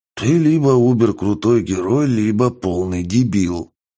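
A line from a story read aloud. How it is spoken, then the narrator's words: Man breathing out words. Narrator (Russian): выдохнул мужик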